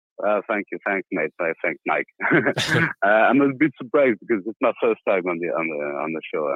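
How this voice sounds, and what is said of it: Speaks English with an accent. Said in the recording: “Sorry, my accent is...”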